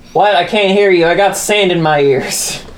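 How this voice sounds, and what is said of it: Character voice. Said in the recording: “you did it in character voice.”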